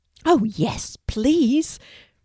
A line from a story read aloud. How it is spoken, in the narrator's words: replies Kelti excitedly